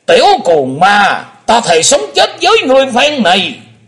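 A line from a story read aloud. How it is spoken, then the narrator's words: Old man's furious shout. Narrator (Vietnamese): lão nhân lùn béo quất hận quát lên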